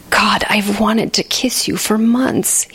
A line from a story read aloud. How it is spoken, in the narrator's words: he whispered between kisses